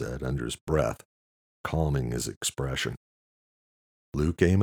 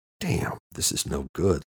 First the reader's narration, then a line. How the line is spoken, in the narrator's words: Luke whispered